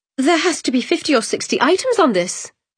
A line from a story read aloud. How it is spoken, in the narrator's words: she exclaimed